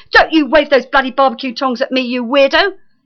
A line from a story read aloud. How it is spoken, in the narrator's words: shrieked Lucien